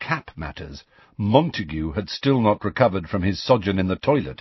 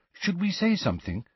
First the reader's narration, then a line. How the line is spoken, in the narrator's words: said Hermione in a worried voice